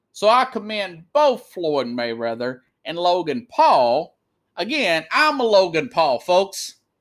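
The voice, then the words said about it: Speaks with a noticeable accent. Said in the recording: “nobody's going to hire me with this accent.”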